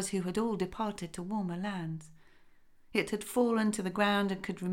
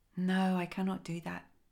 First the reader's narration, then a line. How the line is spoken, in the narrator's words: said sadly